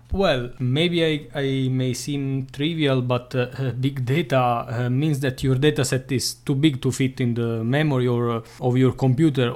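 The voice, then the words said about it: Heavy Italian accent. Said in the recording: “has a quite heavy Italian accent.”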